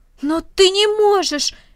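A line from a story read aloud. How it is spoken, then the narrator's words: Exclaiming. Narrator (Russian): воскликнул Рома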